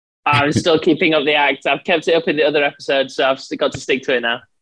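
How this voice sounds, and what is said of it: Obviously fake English accent. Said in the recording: “got an obviously fake English accent. He pretends he's in the UK, so he sounds cool and smart”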